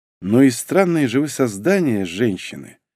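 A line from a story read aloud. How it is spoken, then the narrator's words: Sigh. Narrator (Russian): вздохнул я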